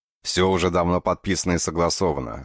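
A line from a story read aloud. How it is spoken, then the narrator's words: Irritated, dismissive. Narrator (Russian): раздраженно отмахнулся Бежанов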